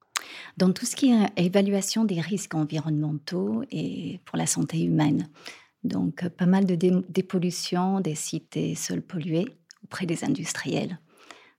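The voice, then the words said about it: English accent speaking French. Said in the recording (French): “vous êtes née en Angleterre, comme on va l'entendre avec votre accent.”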